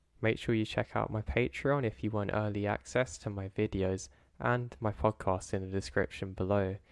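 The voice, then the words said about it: Slightly odd, throaty voice. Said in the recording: “my voice is a bit funny at the moment. My throat's gone a bit weird recently ... my voice is somewhat different”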